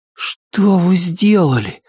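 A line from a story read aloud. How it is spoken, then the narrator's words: Breathless. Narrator (Russian): выдохнул он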